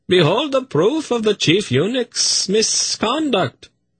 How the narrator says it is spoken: he cried in triumphant voice

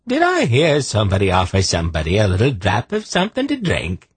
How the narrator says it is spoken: he asked, in a strange, lilting brogue that Geryon did not quite recognize

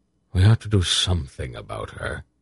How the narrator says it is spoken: Belgarath murmured

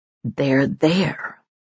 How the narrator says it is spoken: he said in a strange, choked voice

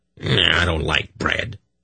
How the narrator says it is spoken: he grunted

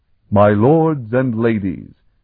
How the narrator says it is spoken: he boomed,

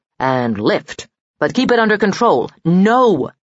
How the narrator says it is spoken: he roared

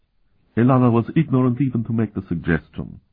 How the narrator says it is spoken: Murtai said calmly

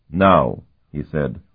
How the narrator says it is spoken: his voice crisp

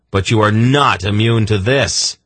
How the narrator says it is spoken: she shrieked

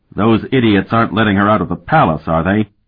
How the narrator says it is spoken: Sparhawk exclaimed angrily

